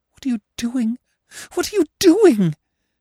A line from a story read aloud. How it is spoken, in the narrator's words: she cried in horror